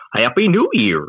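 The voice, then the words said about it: Goofy voice. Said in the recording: “in a goofy voice”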